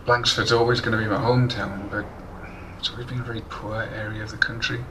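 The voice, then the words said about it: Monotonal regional Gapshire accent. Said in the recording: “As you can tell by the monotonal accent, I'm from Gapshire ... Gapshire twang”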